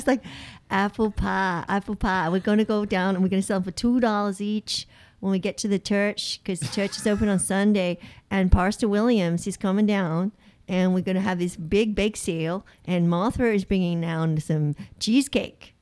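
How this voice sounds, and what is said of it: Poor put-on American Southern accent. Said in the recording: “What accent are you doing? ... I'm trying to do Southern. ... trying to be American ... clearly she doesn't know what she's doing”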